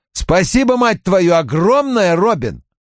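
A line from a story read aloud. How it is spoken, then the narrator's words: Nearly yelling. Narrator (Russian): Он почти орал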